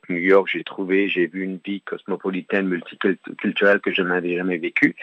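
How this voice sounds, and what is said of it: Determined voice, strong English accent. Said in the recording (French): “La voix déterminée, un accent anglais bien prononcé”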